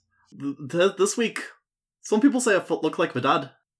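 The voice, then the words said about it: Put-on Irish accent. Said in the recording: “that Irish accent. I will not be able to sustain it”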